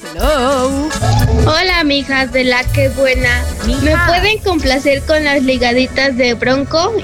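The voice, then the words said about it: Young girl's voice. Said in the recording (Spanish): “Tiene voz de niñita.”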